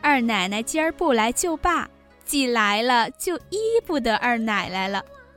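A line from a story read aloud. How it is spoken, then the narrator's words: Laughing women. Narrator (Chinese): 地下几个姬妾先就笑说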